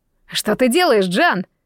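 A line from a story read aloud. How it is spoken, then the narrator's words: Annoyed shout. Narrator (Russian): с досадой крикнул Фокс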